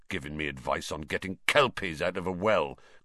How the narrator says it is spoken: growled Hagrid

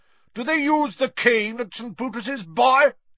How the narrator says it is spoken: she barked across the table

